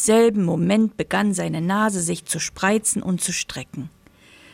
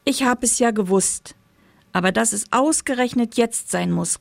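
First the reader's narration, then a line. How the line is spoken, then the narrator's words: Small quiet voice calling. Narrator (German): rief er mit seiner kleinen, leisen Stimme, die sich kein bisschen verändert hatte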